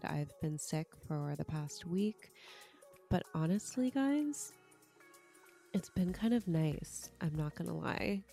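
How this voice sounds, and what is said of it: Congested, sick-sounding voice. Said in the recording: “I am your sick host ... You can probably hear in my voice that I'm super congested.”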